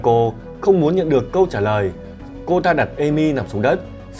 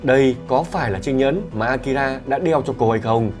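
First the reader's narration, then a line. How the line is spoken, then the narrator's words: Muttering. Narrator (Vietnamese): Kanako lẩm bẩm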